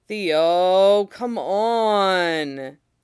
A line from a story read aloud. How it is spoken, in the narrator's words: he whines